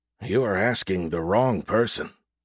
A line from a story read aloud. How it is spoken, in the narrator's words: Friedlander answered in a whisper louder than normal, speaking over the uproar in the room